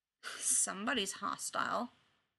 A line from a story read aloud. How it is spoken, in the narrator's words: Chad mutters